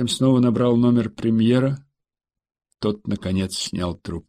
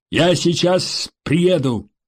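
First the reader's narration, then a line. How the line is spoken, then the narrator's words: Shouted into phone. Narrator (Russian): прокричал он в трубку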